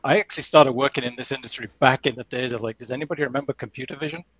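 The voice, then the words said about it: Non-North American accent. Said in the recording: “as you might detect by my accent, um, I'm not a native of North America.”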